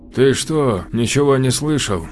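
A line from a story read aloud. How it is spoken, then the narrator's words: Weak voice. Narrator (Russian): Ослабленным голосом поинтересовался Всеволод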